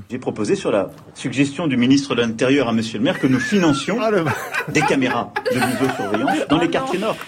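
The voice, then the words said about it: Put-on local Marseille accent. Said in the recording (French): “prendre l'accent du coin”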